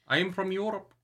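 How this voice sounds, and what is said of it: Put-on vague European vampire accent. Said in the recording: “what is this accent? ... What is this accent?”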